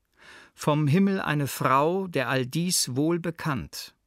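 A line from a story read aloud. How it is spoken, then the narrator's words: Plain answer. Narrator (German): antwortet mein Meister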